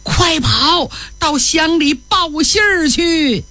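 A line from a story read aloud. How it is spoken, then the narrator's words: Shouting. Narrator (Chinese): 孙乡长冲着儿子孙真喊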